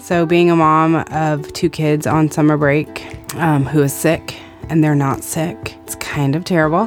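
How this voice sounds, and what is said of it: Sick-sounding voice. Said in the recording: “if you can't tell from my voice, the plague has come to my house this week. It only hit me.”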